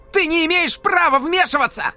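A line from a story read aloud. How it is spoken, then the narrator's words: Shout. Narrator (Russian): крикнул Тайнан к Сейдену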